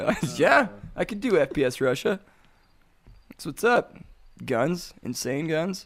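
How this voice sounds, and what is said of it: Usual voice. Nothing is said of it.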